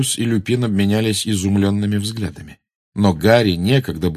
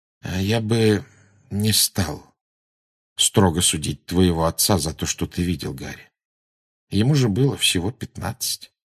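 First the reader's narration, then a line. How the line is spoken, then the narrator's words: Quiet speech. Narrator (Russian): Люпин негромко сказал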